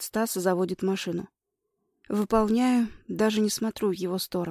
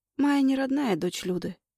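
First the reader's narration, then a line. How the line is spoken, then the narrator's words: Muffled reply. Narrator (Russian): глухо отвечаю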